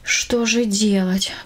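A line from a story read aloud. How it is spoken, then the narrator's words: Sighing. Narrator (Russian): вздохнула она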